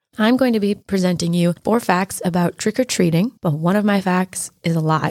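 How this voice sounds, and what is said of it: Hoarse, mostly lost voice. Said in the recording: “I lost my voice at Oktoberfest, so I'm going to sound like this now.”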